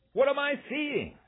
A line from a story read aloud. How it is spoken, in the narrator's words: announcer Graham Mamie screamed as he broadcast